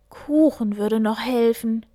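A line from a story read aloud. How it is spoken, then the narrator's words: Groaned. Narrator (German): stöhnte Hase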